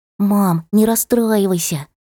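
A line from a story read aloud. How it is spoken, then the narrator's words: Child's whisper. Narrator (Russian): зашептал Сенька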